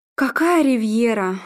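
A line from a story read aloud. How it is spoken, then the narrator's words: Bitter sigh. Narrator (Russian): Арнольд горько вздохнул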